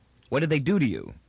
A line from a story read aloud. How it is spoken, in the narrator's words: asked Toran quickly